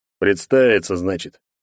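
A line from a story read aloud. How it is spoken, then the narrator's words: Big man's grunt. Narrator (Russian): хмыкнул здоровяк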